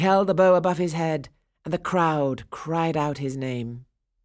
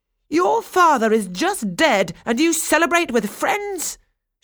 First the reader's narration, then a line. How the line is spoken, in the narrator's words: exclaimed